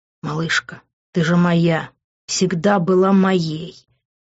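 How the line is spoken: Intimate whisper in ear. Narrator (Russian): шептал он мне в ухо

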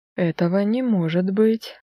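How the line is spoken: Breathless gasp. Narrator (Russian): выдохнула я, чувствуя, как перехватывает дыхание

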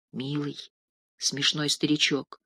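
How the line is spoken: Mutter. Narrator (Russian): пробормотала Катя

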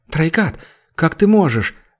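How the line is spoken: Exclamation. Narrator (Russian): воскликнула Эмерна

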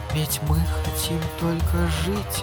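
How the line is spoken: Whispered. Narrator (Russian): прошептала она

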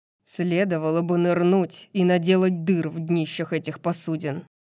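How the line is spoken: Grumbled. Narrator (Russian): проворчал Тарион

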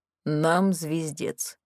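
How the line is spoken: Gloomy summary. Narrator (Russian): мрачно резюмировал Морис

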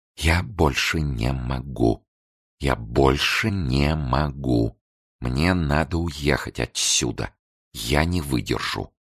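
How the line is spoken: Whispering. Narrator (Russian): Николета шептала

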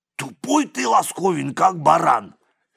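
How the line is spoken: Angry. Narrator (Russian): сердито сказал телохранитель

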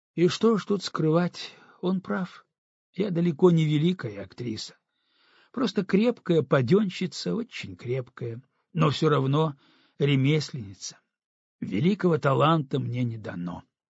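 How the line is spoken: Dejected voice. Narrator (Russian): Алла Владимировна добавила упавшим голосом

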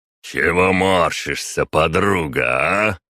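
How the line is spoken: Booming voice, burly man. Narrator (Russian): прогремел бугай

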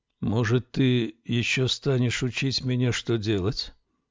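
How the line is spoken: Barely audible speech. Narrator (Russian): чуть слышно произнес

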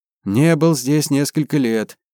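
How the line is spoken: Sighing. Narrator (Russian): Ян вздохнул

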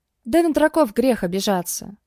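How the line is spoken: Wry snort. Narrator (Russian): хмыкнул он

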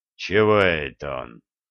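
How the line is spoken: Snort. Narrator (Russian): хмыкнул боярин

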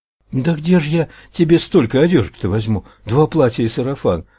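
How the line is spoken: Pleading woman. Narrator (Russian): взмолилась женщина

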